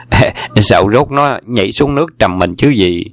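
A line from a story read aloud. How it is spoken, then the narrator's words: Smiling interjection. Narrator (Vietnamese): Đoàn Hoàng Gia mỉm cười xen vào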